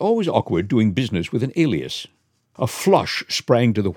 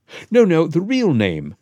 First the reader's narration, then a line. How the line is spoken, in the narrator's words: said Holmes sweetly